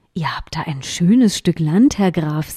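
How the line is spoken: Plain. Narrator (German): sagte der König

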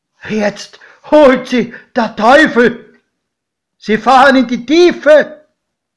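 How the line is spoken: Godfather screaming. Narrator (German): schrie mein Pate

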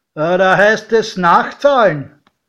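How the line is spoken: Calling out. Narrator (German): Der Türsteher rief

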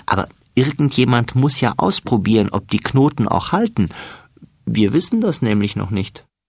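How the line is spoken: Laughing. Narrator (German): lacht Florian

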